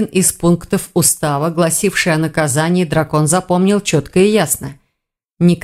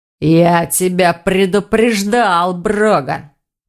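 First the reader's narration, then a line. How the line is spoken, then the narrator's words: Werewolf's growl. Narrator (Russian): прорычал оборотень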